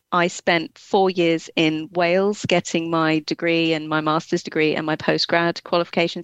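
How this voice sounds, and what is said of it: English accent with Scottish touches. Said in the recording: “So my accent, I think, is sort of an amalgamation of just England and a bit of Scotland in there as well. ... Very charming.”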